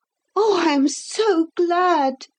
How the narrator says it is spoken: cried Philip among the grass

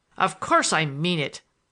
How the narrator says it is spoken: I thundered at him

